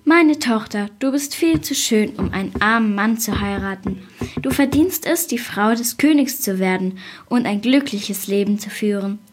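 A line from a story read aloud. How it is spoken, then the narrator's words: Father sighing. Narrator (German): seufzte der Vater und sagte zu ihr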